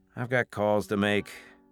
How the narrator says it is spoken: Tyler muttered

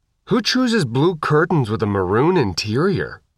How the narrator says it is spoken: Faith asked, her voice muffled by her respirator

